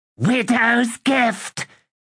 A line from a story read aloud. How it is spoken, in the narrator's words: Hegga cried in glee